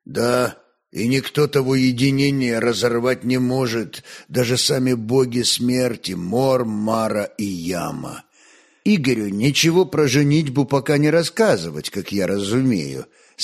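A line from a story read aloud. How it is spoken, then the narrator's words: Plain. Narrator (Russian): спросил Олег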